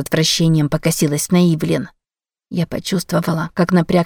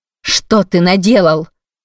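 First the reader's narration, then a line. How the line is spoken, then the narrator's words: Shout. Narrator (Russian): крикнула Корделия Бахи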